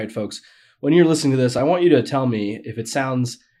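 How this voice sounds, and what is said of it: Usual voice. Nothing is said of it.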